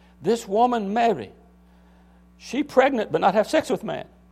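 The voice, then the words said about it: Weak imitated Chinese accent. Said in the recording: “his Chinese accent ... I'm not very good at my Chinese”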